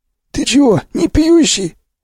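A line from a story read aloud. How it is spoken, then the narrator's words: Surprised, husky. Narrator (Russian): удивился сиплый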